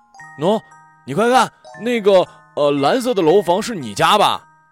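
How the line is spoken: Calling out. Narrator (Chinese): 小敏在水杉树下叫我

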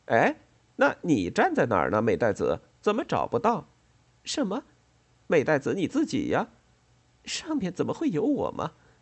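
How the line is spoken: Laughing. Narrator (Chinese): 美代子笑着说

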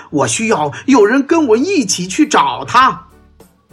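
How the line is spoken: Loud shout. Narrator (Chinese): 汉斯高声喊道

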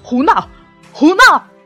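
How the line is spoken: Trembling shout. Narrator (Chinese): 皇上也在发抖，他大喊

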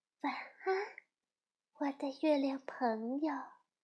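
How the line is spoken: Soft. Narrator (Chinese): 皮皮菲利比轻声地说

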